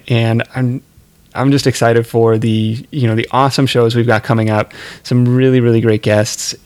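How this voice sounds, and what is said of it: Strained, fading hoarse voice. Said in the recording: “I'm losing my voice. I'm not used to talking this much.”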